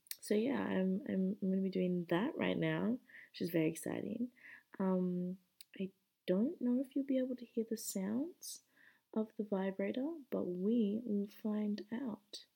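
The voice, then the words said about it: Husky, tired voice. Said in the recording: “if I sound a little husky ... I'm a little bit tired”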